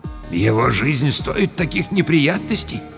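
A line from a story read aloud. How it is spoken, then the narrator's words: Quiet speech. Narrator (Russian): сказал негромко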